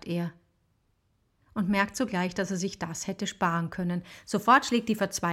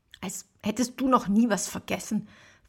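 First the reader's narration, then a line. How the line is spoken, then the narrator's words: Hissed defensively. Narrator (German): faucht sie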